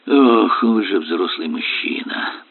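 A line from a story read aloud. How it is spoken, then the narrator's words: Sigh. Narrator (Russian): Вздохнул Ромейн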